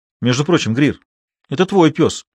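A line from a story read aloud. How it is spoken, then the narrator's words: Snapping retort. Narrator (Russian): огрызнулся Айк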